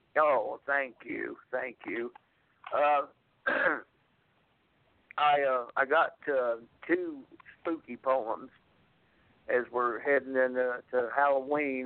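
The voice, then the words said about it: Scratchy, sick-sounding voice. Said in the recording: “I'm a little bit under the weather ... my voice sounds a little scratchy ... I've come down with a bug ... not my usual. Uh, speaking voice.”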